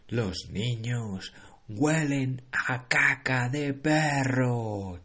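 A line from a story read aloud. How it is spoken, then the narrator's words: Shrieking witch. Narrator (Spanish): chilló la gran bruja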